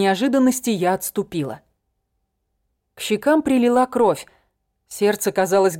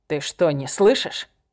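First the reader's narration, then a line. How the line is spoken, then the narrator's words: Growling. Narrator (Russian): прорычал он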